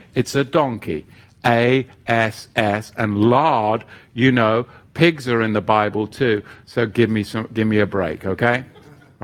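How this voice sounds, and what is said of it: Speaks with a noticeable accent. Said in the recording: “I get some grace because of my accent.”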